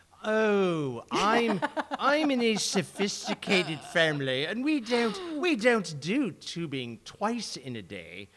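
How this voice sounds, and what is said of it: Put-on English accent. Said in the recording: “an English accent?”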